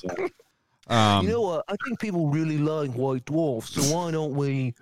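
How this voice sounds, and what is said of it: Put-on accent. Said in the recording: “you had that accent down like perfectly”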